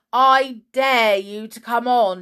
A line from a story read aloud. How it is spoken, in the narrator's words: yelled the boy